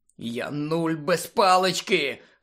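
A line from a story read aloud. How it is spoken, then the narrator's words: Hoarse wheeze. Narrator (Ukrainian): хрипів Рон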